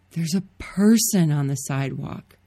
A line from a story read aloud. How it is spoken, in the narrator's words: she whispered, her voice hoarse